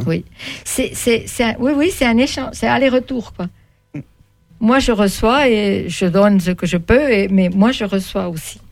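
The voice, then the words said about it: Swiss German accent in French. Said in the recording (French): “votre accent ? ... Suisse ... Je suis donc normalement de langue allemande ... Vous avez un accent, mais on ne sait pas où vous mettre ... je vous aurais mis en Alsace”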